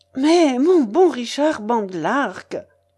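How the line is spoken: Exclaiming, intervening. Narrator (French): s'écria Isaac, cherchant à intervenir

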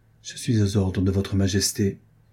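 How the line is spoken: Low sigh. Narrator (French): dit-il en soupirant bien bas

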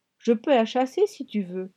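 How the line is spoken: Calm woman. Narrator (French): fit-elle d'un ton calme

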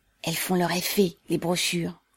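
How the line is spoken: Whispering. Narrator (French): chuchota Goussef

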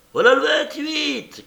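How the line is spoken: Woman shouting. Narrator (French): crie une dame

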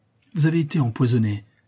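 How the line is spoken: Vehement exclamation. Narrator (French): s'écria le docteur avec véhémence

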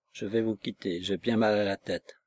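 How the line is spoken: Murmured. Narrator (French): Elle murmura

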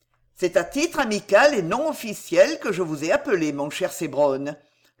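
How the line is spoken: Plain. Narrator (French): lui dit M

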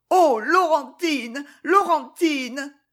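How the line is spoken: Anguished sobbing cry. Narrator (French): cria la pauvre Flore avec un sanglot qui déchira le fond de son être

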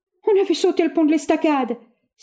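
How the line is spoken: Desperate cry. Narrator (French): s'écria-t-il avec désespoir

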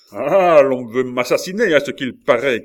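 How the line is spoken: Furious shout. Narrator (French): cria la Mole, dont les yeux flamboyaient

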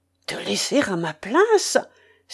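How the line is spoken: Astonished exclamation. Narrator (French): s'écria Cédric, stupéfait de la proposition

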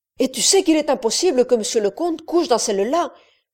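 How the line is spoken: Woman's quick exclamation. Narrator (French): s'écria vivement la femme

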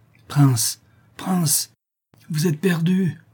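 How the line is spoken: Wretched slave moaning. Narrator (French): gémissait le malheureux esclave

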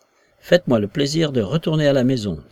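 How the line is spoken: Dry, hard tone. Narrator (French): dit la voix, d'un ton aussi sec et dur que celui du colonel

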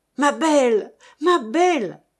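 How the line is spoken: Shouting. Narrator (French): lui cria Michel

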